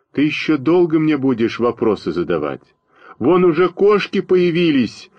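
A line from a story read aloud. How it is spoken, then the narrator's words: Frantic yelling. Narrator (Russian): заорал на меня, как очумелый Костя Малинин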